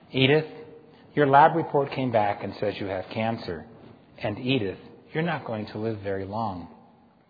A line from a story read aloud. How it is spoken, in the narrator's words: Phillips said gently